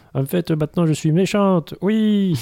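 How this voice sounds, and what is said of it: Put-on southern French accent. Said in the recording (French): “avec l'accent du sud”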